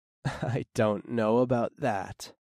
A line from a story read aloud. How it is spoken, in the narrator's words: chuckled